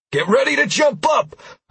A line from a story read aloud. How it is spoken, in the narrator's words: I shouted when I was 50 feet away